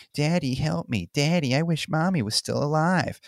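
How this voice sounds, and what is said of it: Whiny mocking child's voice. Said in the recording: “mocking Billy ... in a whiny voice.”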